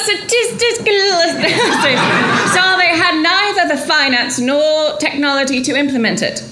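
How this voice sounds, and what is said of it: Weak put-on accent. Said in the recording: “I thought this accent would be so much better.”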